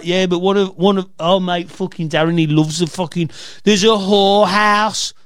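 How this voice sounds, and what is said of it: Weak put-on Coventry accent. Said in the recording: “I'm not doing a good Coventry accent.”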